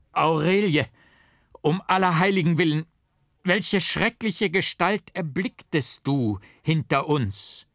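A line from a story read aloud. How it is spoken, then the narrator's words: Terrified scream. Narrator (German): wie mich selbst der Gedanke meines grässlichen Doppeltgängers stärker erfasste, schrie ich auf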